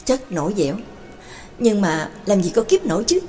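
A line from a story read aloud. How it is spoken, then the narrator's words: Soft exhaling sigh. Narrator (Vietnamese): Đường Mẫn bất giác khẽ thở hắt ra một hơi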